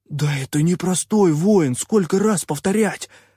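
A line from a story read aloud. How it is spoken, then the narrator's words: Hiss through bared fangs. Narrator (Russian): прошипел попрыгун, скаля клыки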